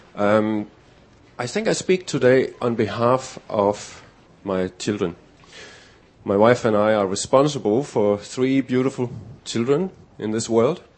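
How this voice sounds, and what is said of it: Danish accent. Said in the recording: “my accent,... I came to Australia 4 years ago from Denmark”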